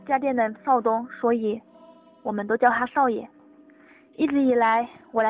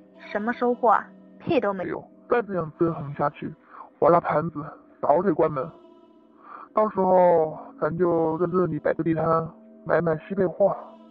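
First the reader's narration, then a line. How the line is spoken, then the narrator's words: Heavy sigh. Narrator (Chinese): 长叹一声，说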